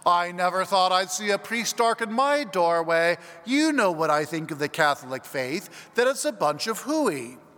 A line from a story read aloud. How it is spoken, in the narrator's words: the gentleman exclaimed